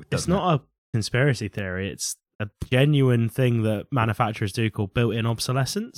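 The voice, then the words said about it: Norfolk English accent. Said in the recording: “I have a Norfolk accent”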